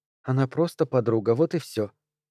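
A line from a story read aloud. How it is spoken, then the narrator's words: Soft. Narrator (Russian): сказала она мягко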